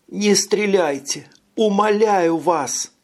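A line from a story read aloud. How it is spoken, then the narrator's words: Sobbing. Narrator (Russian): Зарыдала Эрника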